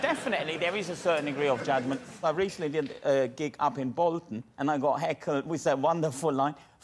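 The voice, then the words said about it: Man with a slight foreign accent. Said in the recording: “got a bit of an accent, haven't you?... I've got a bit of an accent.”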